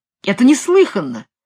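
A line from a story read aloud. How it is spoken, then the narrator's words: Exclaiming. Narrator (Russian): воскликнул Наач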